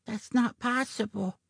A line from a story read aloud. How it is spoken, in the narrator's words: Jilly Bean whispered